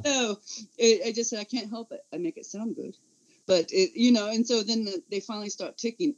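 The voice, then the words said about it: Speech impediment heard as regional accent. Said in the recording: “where are you from? They think I'm up there from the north ... What is your accent from? ... This accent is a speech impediment ... I did not sound like this before disability. I sounded like every other Californian, just plain, you know, TV voice”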